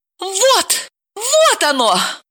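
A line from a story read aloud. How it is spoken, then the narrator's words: Triumphant exclamation. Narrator (Russian): торжествующе воскликнула Далила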